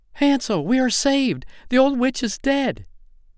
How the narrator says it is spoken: cried

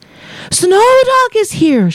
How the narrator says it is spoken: she cried to Olin

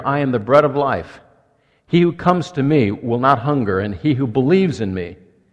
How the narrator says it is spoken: Jesus says

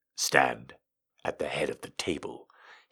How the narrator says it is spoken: he said coolly

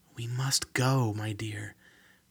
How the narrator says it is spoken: said in a gentle whisper

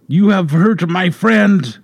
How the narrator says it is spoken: in the Douglas dialect, she growled

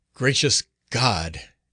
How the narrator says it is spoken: exclaimed a voice behind him

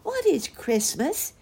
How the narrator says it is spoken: asked excitedly

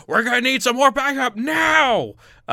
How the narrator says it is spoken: the lieutenant in the back is screaming out

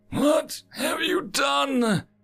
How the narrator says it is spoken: Maharia wheezed

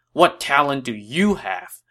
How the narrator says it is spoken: he asked angrily

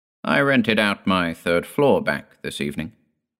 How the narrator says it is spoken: said

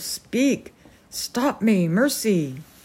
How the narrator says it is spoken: cried the colonel

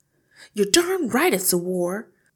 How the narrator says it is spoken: Hortensia cried

